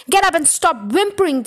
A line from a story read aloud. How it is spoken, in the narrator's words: the trunchbull barked